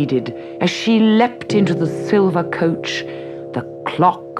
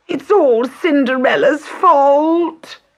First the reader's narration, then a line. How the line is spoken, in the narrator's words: whined Bertha